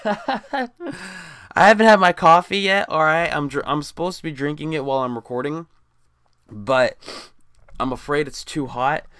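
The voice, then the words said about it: Raspy voice. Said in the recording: “my voice is fucked up ... It just seems to be a little raspy”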